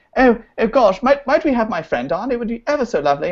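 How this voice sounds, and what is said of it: Put-on British accent. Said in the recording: “in my British accent ... Yeah, you're British, like little orphan boy.”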